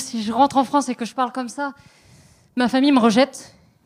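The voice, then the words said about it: French accent from France. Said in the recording (French): “je vais vite être trahie par l'accent... Non, je suis une maudite française. J'ai pas encore attrapé le québécois.”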